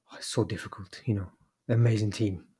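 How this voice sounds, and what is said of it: Impression of Pep Guardiola. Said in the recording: “Good impression. ... I thought it was a decent impression”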